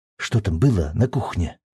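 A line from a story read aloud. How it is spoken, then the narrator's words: Whisper. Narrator (Russian): прошептала Кэдди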